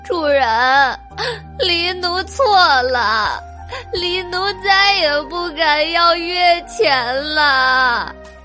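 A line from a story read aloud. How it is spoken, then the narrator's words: Tearful pleading. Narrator (Chinese): 他泪流满面的哭求道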